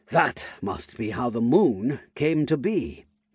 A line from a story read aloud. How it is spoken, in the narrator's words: muttered